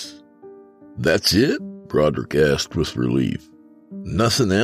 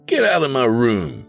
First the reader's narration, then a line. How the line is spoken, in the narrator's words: Broderick exclaimed with an air of excitement